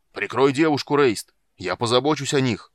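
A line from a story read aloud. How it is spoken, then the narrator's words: Shout from under bodies. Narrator (Russian): прокричал Карамон из-под кучи навалившихся тел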